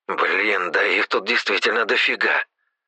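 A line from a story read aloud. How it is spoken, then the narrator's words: Mutter. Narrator (Russian): пробормотал Серега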